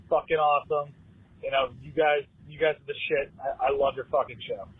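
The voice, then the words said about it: Massachusetts accent. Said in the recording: “I appreciate your accent. You got one of those good Massachusetts accents.”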